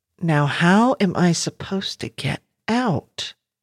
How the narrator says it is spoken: Janie muttered

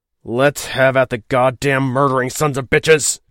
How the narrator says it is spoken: he snarled, enraged to blasphemy by what they were doing to his family and to his ship

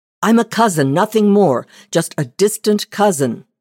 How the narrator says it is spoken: the man cried, cringing much as she was

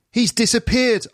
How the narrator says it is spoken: I cried

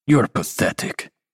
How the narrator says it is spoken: Mirodic grunts

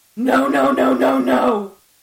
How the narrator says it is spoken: screamed

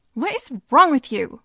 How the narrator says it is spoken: daughter shouts

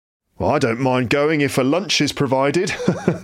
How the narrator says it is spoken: laughed one gentleman

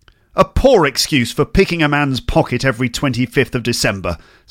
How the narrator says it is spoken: said Scrooge

